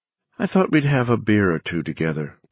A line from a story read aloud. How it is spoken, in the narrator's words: Bobby said evenly